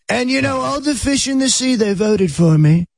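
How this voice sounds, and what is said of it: Donald Trump impression. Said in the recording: “the secret to doing Trump ... that impression”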